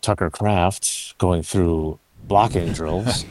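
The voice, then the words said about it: Golf announcer voice. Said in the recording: “my golf announcer voice ... so I can get back to my regular voice”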